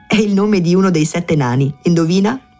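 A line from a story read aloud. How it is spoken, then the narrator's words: Woman laughing. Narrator (Italian): La donna rise e disse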